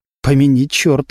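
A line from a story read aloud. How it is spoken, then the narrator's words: Whisper. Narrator (Russian): шепнул Кривошеев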